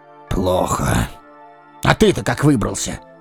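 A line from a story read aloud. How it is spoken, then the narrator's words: Curt words through teeth. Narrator (Russian): сквозь зубы бросил князь Изборский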